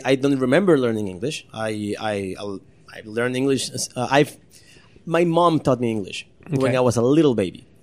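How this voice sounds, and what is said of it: Slight accent in fluent English. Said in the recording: “your English is perfect with just a little bit of an accent”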